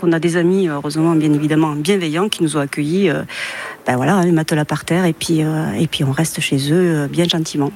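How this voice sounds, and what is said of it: Toulouse French accent. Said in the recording (French): “ce bel accent que vous entendez, c'est un accent toulousain”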